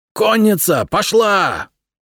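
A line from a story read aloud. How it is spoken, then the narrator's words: Yelled. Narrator (Russian): Заорал Исаак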